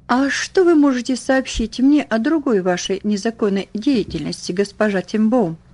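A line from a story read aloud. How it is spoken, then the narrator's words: Plain. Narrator (Russian): спросил он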